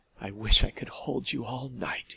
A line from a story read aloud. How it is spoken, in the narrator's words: said huskily